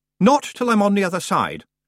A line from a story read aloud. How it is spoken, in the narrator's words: Roland said firmly